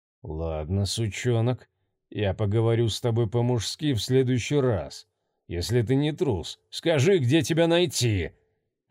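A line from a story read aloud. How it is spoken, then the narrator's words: Muttered through gritted teeth. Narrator (Russian): сквозь зубы процедил он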